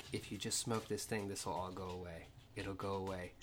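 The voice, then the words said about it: Whispered line. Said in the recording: “I'm whispering”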